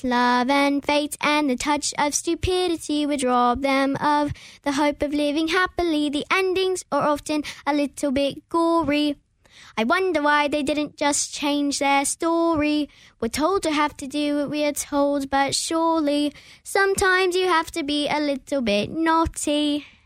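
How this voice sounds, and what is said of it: British accent. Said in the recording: “How did you do that accent? ... I've done a lot of British shows. ... We just speak in British all the time.”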